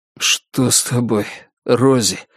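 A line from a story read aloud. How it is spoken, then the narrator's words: Hoarse strained voice. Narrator (Russian): хрипло выдавил он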